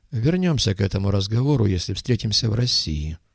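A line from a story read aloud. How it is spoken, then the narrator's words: Gloomy remark. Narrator (Russian): мрачно заметил Гхош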